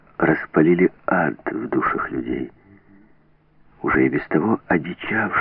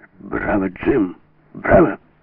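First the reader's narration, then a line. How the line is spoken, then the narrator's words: Ringing shout. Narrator (Russian): крикнул он звенящим голосом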